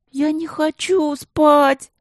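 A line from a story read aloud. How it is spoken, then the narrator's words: Whining, then sobbing. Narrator (Russian): заныла, а затем вдруг зарыдала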